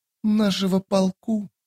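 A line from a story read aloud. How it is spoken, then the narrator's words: Quiet. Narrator (Russian): тихо проговорила дымка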